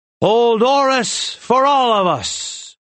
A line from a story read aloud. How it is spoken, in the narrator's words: Rin shouted